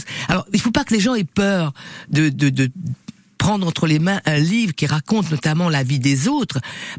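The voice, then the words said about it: Réunion Creole French accent. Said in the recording (French): “Vous entendez mon accent créole”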